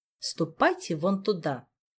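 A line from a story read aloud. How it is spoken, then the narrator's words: Dry commanding tone. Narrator (Russian): сухим повелительным тоном сообщил маг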